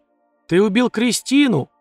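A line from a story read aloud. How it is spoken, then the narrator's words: Shout. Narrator (Russian): выкрикнул Ник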